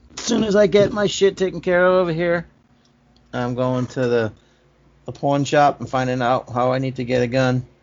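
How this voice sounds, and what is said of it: Speaks with a noticeable accent. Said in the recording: “They all sound the same in my accent.”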